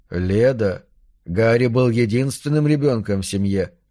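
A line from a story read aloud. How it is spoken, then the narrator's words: Soft. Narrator (Russian): мягко сказал Халик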